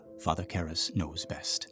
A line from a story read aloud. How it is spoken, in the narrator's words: said the exorcist quietly